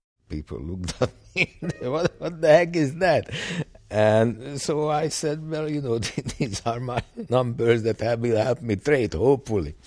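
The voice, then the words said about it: Hungarian accent. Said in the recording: “There's this Hungarian guy with a strange accent ... many of them didn't understand my accent”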